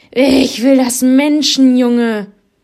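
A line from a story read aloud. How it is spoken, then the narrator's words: Tiger thundering. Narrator (German): donnerte der Tiger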